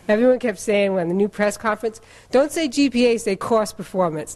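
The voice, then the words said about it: Massachusetts accent. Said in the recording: “I'm really from Massachusetts, so you'll have to excuse the accent.”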